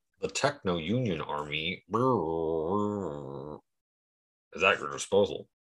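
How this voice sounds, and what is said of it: Imitates a movie character's voice. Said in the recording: “That's my best impression.”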